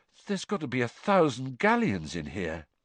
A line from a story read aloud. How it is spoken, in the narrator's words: said George weakly